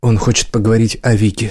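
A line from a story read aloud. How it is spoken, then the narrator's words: Plain. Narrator (Russian): сказал Брайан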